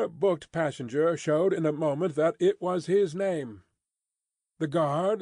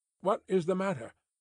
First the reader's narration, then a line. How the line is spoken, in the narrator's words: asked the passenger, then, with mildly quavering speech